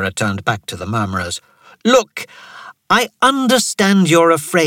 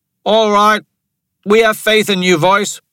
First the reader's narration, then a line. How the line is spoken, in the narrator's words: the man who had been worried called out